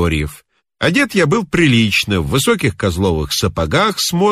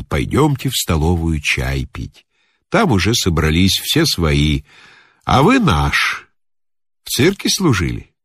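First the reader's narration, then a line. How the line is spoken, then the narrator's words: Old man, plain. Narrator (Russian): Старик сказал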